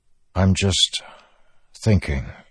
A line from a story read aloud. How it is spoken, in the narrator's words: he said, trying to keep his voice even